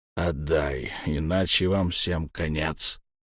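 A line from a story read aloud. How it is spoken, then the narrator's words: Grumbled. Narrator (Russian): буркнул он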